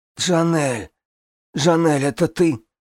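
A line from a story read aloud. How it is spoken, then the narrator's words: Sudden plaintive hoarse voice. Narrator (Russian): Раздался вдруг жалобный хриплый голос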